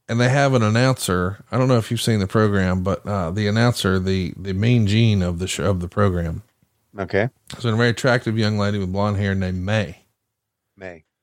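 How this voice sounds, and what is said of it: Rural Southern US accent. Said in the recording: “I'm a hillbilly, right? ... I got an accent, I reckon”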